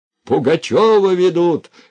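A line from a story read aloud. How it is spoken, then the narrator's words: Shouting. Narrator (Russian): кричал он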